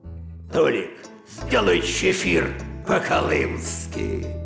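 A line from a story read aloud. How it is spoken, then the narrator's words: Hoarse rasp. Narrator (Russian): сосед мой, товарищ неблизкий, прохрипит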